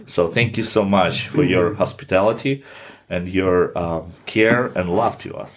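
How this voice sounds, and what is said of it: Non-native accented English. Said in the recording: “you speak beautiful English. Love your accent.”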